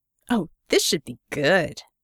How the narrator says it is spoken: Scope spat

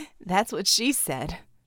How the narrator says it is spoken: Mel chuckled

